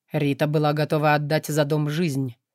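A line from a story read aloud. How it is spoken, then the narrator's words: Cold statement. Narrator (Russian): холодно констатировала Кара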